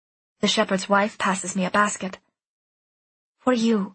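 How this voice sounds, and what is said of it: Usual voice. Nothing is said of it.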